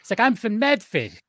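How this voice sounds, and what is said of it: Bad put-on Boston accent. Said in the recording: “he tries to have a bad Boston accent.”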